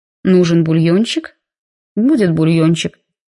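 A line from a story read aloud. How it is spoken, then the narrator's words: Very peaceable voice. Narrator (Russian): очень мирным голосом сказал он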